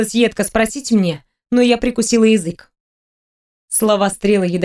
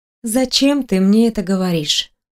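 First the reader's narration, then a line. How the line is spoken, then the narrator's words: Tired question. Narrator (Russian): устало спросила я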